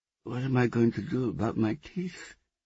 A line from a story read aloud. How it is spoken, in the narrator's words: lisped